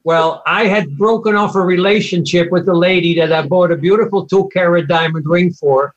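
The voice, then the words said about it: Dutch accent. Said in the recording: “my Dutch accent”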